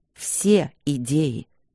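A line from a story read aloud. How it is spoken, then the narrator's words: Menacing, low repetition. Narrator (Russian): повторил Демьян грозно, низко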